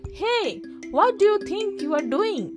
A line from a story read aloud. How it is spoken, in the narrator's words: the golden swan yelled